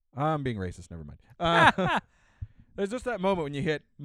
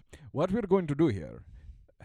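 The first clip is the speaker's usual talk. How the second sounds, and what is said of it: Poor put-on Indian accent. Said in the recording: “I'll use my Arab voice... that's Indian shit... my accents are terrible, and I cannot do them. So I'm doing Indian guy.”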